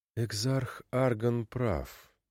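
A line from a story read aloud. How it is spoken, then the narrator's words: Through gritted teeth. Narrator (Russian): сквозь зубы процедила Ванда Ностра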